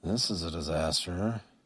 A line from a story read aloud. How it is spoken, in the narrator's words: he said under his breath